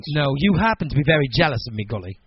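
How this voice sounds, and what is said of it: Put-on cultured English accent. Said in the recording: “My impersonation of English people is not that bad... You sound more English than I do... I sound more educated English”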